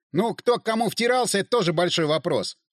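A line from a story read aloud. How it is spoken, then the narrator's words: Snapping back irritably. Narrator (Russian): огрызнулся Шульгин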